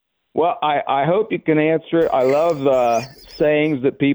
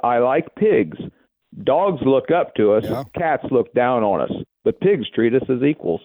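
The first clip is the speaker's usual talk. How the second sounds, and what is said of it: Put-on British accent. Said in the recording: “With a very British accent.”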